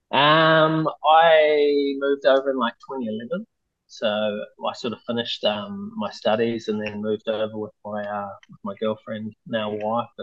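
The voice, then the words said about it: Thick New Zealand accent. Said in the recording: “you got a pretty thick Kiwi accent”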